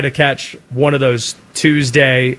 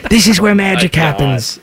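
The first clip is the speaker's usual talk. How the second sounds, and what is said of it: Awful accent imitating another person's voice. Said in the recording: “Awful, you know, accent.”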